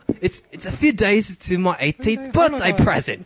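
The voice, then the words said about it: Put-on Scottish accent. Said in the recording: “You need a Scottish accent.”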